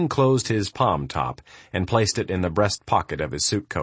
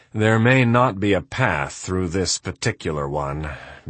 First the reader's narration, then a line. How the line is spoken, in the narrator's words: Baxter sighed